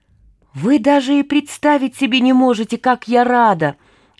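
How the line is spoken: Exclaimed. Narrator (Russian): воскликнула Анка

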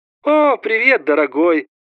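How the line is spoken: Cooing. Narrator (Russian): проворковала мама

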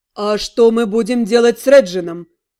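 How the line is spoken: Loud over noise. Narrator (Russian): Громко спросил он, перекрывая общий шум

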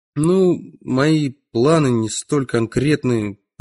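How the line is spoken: Mumbled. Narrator (Russian): промямлил я

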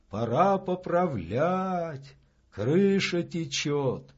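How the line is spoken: Sighing. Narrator (Russian): Числов вздохнул

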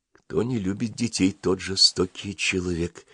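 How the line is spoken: Quiet. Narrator (Russian): тихо сказала Маруся

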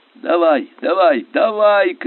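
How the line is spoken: Shouting. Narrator (Russian): кричал Скобелев

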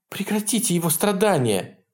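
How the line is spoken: Pleading woman. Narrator (Russian): взмолилась сидящая рядом с Хэггартом блондинка

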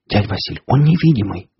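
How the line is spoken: Fervent whisper. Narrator (Russian): горячо зашептала Настя

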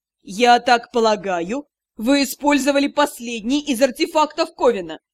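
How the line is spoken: Mocking question. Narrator (Russian): Насмешливо поинтересовался лорд-директор

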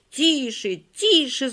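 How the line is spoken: Shouted in chorus. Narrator (Russian): закричали Коля, Оля, Галя, Валя

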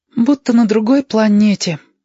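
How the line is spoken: Sighing. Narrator (Russian): вздохнул Кудрявость

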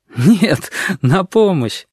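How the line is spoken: Laughing loudly. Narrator (Russian): расхохотался кузнечик

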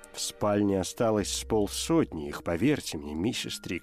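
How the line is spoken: Plain. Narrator (Russian): сказал он

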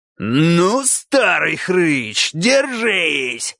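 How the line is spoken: Roaring. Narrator (Russian): взревел кабан

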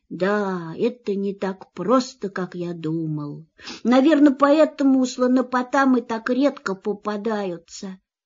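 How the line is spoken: Sad. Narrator (Russian): грустно добавил

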